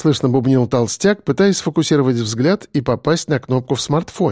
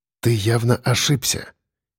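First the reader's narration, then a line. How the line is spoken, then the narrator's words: Quiet. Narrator (Russian): тихо проговорил я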